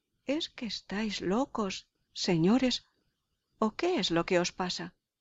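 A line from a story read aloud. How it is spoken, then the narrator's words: Indignant exclamation. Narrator (Spanish): exclamó justamente indignado Malvolio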